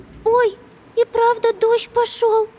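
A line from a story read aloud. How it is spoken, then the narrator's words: Squeak. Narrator (Russian): пискнула Амелия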